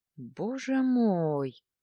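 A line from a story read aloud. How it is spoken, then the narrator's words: Groaning. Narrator (Russian): простонал Владлен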